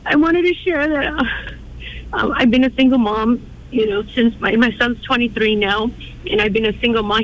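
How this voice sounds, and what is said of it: Emotional, shaky voice. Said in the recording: “I'm a little bit emotional right now.”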